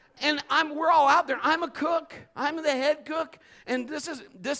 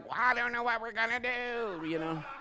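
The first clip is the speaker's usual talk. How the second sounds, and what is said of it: Imitates another person's voice. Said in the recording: “I'll just do my impression of him.”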